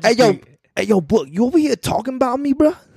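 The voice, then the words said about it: Imitates another person's voice. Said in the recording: “I can't do his voice no more.”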